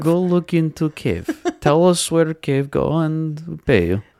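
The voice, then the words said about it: Mediocre put-on foreign accent. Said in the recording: “Is that even halfway decent of an accent? ... A little bit.”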